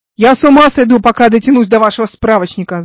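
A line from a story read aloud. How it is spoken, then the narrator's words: Yelled. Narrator (Russian): заорал он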